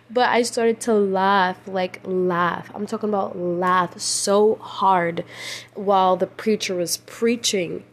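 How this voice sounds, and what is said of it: Tired, slightly incoherent speech. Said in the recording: “I sound like a bit gibberish. Like I said, I'm so tired. It's middle, like legit. It's like 4 a.m. right now.”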